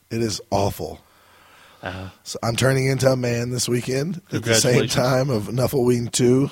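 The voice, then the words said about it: Rough, unwell-sounding voice. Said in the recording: “My voice is horrible. ... It sure sounds it.”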